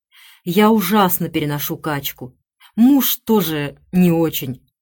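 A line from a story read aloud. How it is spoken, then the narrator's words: Sighing. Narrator (Russian): вздохнула Кларисса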